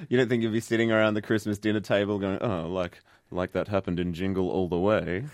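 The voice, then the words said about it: Snooty imitation of another person's voice. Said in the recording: “was that your Ash impersonation just then? ... She gets very snooty.”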